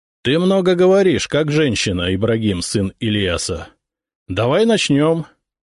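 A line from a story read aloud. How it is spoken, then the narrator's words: Loud. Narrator (Russian): Громко ответил я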